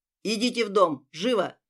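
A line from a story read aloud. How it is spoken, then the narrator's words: Barked order. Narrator (Russian): гаркнул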